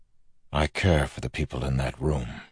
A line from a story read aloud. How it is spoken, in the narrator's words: Wax said softly